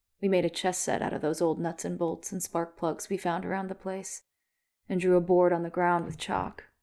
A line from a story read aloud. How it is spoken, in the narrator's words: said Sam